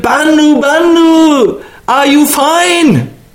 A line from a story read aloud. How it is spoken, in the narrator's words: he shouted